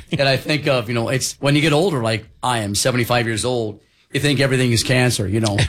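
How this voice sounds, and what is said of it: Hoarse, failing voice. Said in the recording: “My voice is going ... something's going on with my voice”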